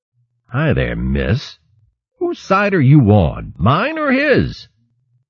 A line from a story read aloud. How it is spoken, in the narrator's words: The otter sat down in the shallows, chuckling merrily